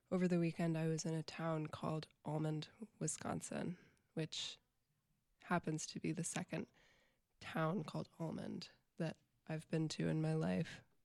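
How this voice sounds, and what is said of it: Slightly scratchy voice. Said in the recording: “I've got a cold this week, so my voice is a little scratchy.”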